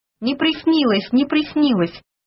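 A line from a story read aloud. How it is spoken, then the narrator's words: Joyful shout. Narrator (Russian): радостно закричал я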